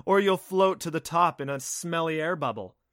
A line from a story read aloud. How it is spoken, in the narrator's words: warned with a laugh